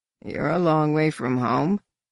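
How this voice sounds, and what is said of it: Heavily disguised, amused voice. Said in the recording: “The voice's sex, species, and accent were heavily disguised, but the speaker seemed amused underneath the camouflage.”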